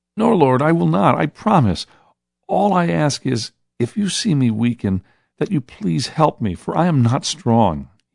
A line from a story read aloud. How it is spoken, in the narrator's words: he said, with a pleading in his eyes